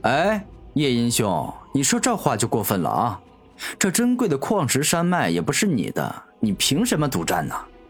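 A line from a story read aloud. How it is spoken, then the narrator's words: Cold sarcasm. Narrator (Chinese): 夜莺无情的讽刺道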